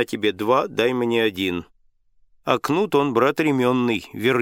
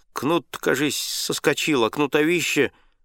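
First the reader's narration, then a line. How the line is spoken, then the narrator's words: Muttering. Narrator (Russian): Егор пробормотал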